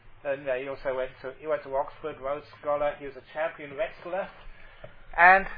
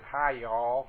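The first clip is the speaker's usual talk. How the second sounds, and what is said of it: Attempted Tennessee accent. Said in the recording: “this incredible, beautiful accent ... I can't do it. That's the best I try ... this really good, you know, Tennessee accent”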